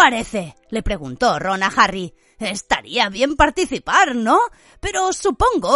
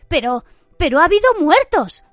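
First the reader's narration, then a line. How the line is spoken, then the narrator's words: Worried voice. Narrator (Spanish): señaló Hermione con voz preocupada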